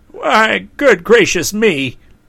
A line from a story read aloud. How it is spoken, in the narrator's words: he cried in distress